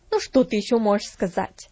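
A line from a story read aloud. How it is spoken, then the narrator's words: Irritated question. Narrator (Russian): раздраженно спросила Магдалина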